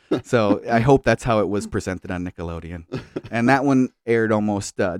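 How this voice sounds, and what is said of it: Usual voice. Nothing is said of it.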